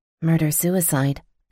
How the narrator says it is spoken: I muttered

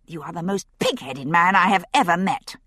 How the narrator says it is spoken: said crossly

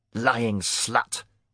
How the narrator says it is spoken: he spat

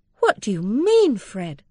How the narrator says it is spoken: Mary exclaimed indignantly, blushing deeply, and surprised out of all her readiness in reply

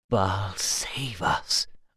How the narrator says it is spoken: breathed, astonished

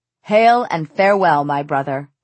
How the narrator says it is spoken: he spat

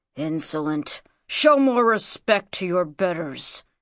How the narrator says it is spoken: growled the Libyan

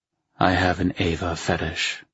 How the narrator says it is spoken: I murmured

